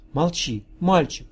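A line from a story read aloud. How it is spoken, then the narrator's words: Joyful whisper. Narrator (Russian): прошептала она радостно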